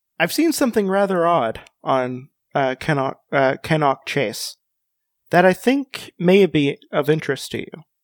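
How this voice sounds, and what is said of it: Kentucky accent put-on British style. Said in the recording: “I can read this as a recent transplant to England, who moved from Kentucky”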